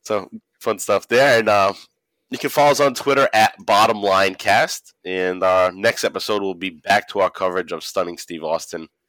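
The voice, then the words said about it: Congested voice with a cold. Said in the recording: “my voice is different. I got a cold. I've had a cold for the past week ... I'm gonna try to not sniffle”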